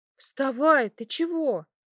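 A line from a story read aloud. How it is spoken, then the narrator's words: Frightened. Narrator (Russian): испуганно сказала она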